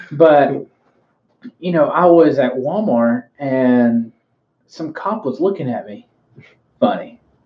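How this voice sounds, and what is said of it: Southern US accent. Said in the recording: “I know the voice, you know, the Southern accent”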